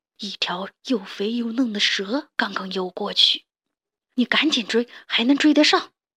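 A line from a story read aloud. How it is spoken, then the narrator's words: Low voice. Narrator (Chinese): 爷爷低声说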